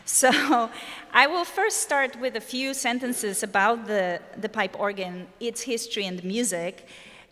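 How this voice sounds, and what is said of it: Polish accent. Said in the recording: “this Polish person, clearly with an accent”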